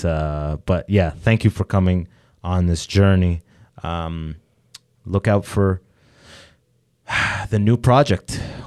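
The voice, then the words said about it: Slightly teary, emotional voice. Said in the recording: “I'm not getting teary-eyed, but I'm getting teary-voiced a little bit”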